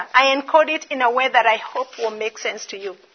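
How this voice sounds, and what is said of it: Kenyan-accented English. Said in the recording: “whether that be my accent... now that I'm from Kenya”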